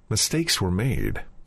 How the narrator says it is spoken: He might as well have muttered

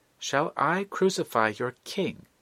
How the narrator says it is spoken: exclaims Pilate

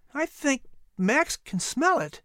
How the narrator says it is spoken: Patrick said nervously

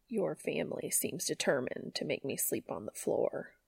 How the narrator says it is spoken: Cass grumbled quietly

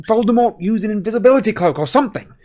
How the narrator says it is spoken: Harry shouted

